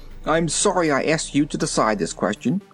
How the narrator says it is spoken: said the zebra, crossly

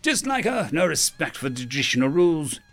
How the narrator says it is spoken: he spat

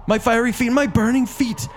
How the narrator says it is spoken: And then he heard DeFago screaming

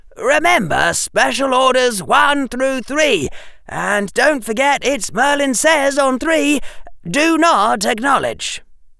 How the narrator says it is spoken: Harry said loudly

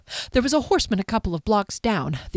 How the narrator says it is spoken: the elf panted

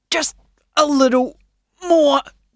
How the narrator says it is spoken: grunted Shan

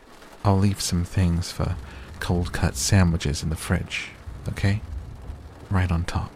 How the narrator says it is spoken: muttered, then added more clearly

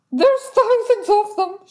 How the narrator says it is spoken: she shrieked

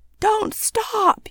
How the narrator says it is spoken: roar

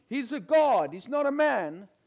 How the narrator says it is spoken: The people are shouting

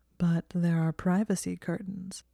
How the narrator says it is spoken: Draco said in a low purr

